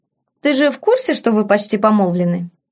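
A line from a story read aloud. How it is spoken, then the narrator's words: Snorting. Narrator (Russian): Афродита фыркнула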